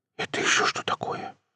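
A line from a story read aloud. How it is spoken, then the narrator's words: Surprised whisper. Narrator (Russian): прошептал удивленный Круглов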